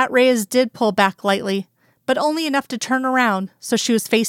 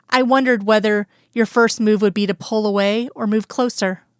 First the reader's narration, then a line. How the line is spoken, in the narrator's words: Skinner answered